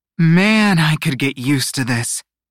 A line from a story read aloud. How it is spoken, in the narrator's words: she sighed